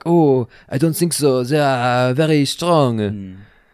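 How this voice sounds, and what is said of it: Put-on accent. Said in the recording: “I know that you would have a great accent.”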